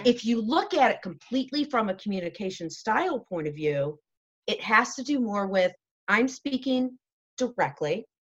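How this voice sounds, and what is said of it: Raised, loud voice. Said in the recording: “I'm actually probably raising, like I'm doing right now, I'm raising my voice, I'm speaking loudly.”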